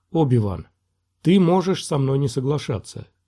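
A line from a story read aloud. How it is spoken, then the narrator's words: Quiet. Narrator (Russian): тихо произнес Квай-Гон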